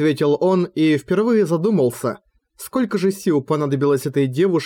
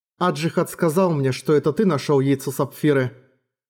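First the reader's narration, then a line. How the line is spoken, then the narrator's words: Gentle and calm. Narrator (Russian): Арья, словно стряхнув тяжкие воспоминания, сказала нежно и спокойно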